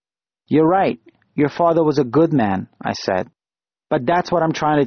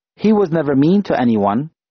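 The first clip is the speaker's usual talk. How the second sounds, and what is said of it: Wheezy, small child's voice. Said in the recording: “in a wheezy little voice.”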